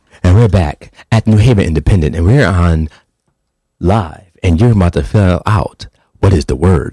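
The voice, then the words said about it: Radio announcer voice. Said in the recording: “Can you use your radio voice?”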